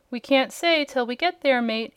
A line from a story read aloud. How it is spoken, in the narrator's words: answered the sailor in a cheerful voice